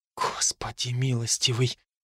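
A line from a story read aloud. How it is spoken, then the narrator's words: Startled whisper. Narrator (Russian): прошептала Джо, разглядев обитателей площади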